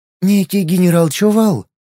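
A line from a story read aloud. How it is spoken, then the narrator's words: Joyful. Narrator (Russian): радостно сообщила она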